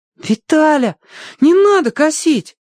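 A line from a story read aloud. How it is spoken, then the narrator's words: Pleading. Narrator (Russian): взмолился Тенька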